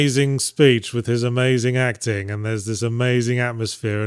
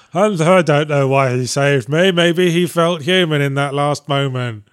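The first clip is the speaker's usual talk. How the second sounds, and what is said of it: Disinterested Harrison Ford voiceover impression. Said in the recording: “Harrison Ford's very disinterested voice ... my impression of Harrison Ford's voiceover on Blade Runner”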